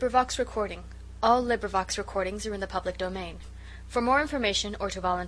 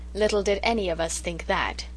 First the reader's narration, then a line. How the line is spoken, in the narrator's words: said Susan sharply